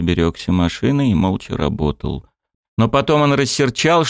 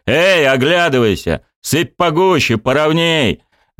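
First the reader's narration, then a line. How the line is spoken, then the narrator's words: Shouting from the engine. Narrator (Russian): машинист кричал с машины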